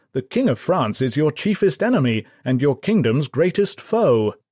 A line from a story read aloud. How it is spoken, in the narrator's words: Gloucester and Arundel exclaimed in a state of disbelief